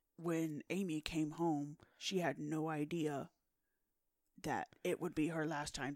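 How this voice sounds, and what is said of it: Impression of Forensic Files narrator. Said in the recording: “that dude has a voice of velvet ... Do an impression ... Do the whole intro”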